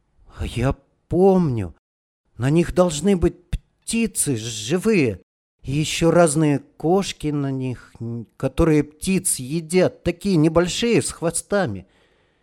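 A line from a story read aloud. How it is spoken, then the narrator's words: Child's uncertain voice. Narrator (Russian): мелкий вдруг сказал неуверенно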